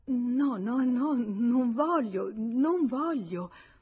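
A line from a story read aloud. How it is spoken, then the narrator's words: Dismayed stammering. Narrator (Italian): sgomentata dall'idea di quel convegno a due, e balbettò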